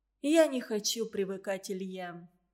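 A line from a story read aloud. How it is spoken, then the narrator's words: Sad, deep heartfelt voice. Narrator (Russian): сразу погрустнев сказала Анна своим грудным, от самого сердца идущим голосом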